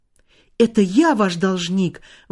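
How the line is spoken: Young man exclaiming. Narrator (Russian): воскликнул молодой человек

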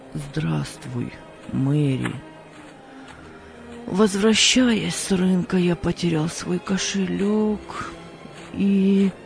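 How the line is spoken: Very sad voice. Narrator (Russian): очень печальным голосом сказал

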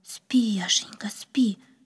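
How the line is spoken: Whisper. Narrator (Russian): прошептала она

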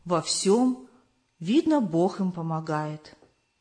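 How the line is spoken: Old woman's thoughtful sigh. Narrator (Russian): вздохнула задумчиво старушка в заключении

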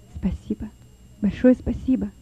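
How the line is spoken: Whisper. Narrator (Russian): прошептал Лёва

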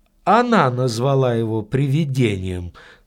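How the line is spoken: Calm. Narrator (Russian): спокойно сказал маленький человек

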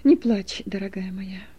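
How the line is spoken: Tender pleading. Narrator (Russian): нежно упрашивал ее муж

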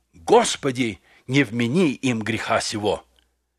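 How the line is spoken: Loud dying exclamation. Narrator (Russian): последним вздохом воскликнул громким голосом

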